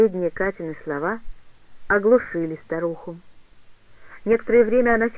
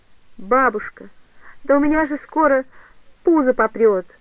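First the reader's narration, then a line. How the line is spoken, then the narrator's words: Muffled sobbing. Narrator (Russian): уронив голову в подушку, опять зарыдала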